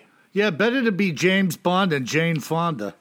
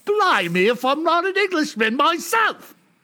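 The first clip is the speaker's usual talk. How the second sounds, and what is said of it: Put-on British accent. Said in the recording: “my British accent, telling me it's bogus”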